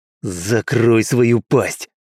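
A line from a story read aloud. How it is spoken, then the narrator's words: Hissing. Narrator (Russian): прошипел Мэйд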